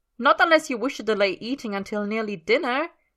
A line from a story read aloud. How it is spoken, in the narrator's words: Merlin snaps